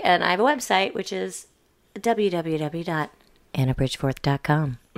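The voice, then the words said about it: Clean, polished radio announcer voice. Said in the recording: “That was clean. ... That was my radio voice.”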